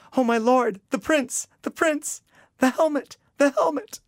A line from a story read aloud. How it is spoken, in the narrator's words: A volley of cries, voices replied